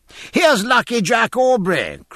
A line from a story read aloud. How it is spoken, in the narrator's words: cried Bennett of the Aurora